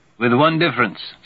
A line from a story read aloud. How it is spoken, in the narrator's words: says Blodgett Waxwing